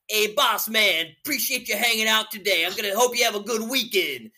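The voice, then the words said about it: Put-on strong New Jersey accent. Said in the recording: “he's got this super like New Jersey accent ... super super New Jersey that's, accent”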